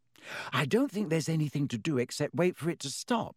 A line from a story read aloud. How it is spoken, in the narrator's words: said Hermione anxiously